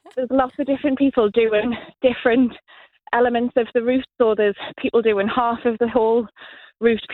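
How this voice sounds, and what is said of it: Out of breath while talking. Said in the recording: “I'm getting out of breath because I'm climbing a little hill... I'm hearing you climbing. I can tell you're getting out of breath”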